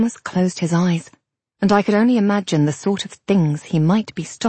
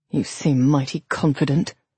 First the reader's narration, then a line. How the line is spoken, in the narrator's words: the captain muttered